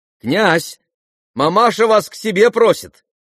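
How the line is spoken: Shouting. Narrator (Russian): крикнул Коля

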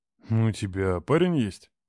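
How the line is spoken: Deep bass from behind. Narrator (Russian): Пробасили сзади

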